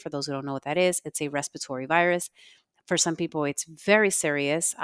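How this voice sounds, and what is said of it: Congested, not-fully-recovered voice. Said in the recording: “I'm still recovering from what you hear. My voice is not back 100% because I'm still very congested”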